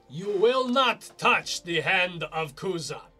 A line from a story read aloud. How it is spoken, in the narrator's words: she will shout